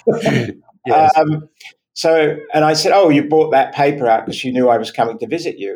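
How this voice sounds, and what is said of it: Virginia accent. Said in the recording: “It's my Virginia accent.”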